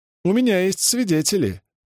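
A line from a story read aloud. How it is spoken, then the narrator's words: Laughing. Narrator (Russian): засмеялась Санна Доскелен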